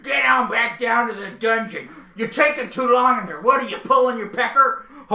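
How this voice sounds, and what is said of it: Fast aggressive Stu Hart impression. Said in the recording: “my Stu Hart is a little too fast and a little too aggressive. It needs to be quieter and scarier”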